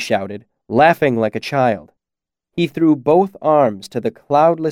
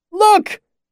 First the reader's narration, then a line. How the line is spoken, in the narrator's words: he shouted, tilting his head back